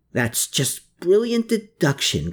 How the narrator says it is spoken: grumbled Riedel

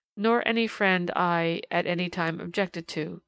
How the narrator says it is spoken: stammered the unfortunate young man, evidently speaking with an effort

